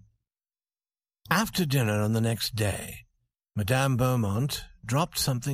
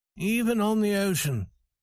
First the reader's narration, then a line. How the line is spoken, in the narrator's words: said Farrington sadly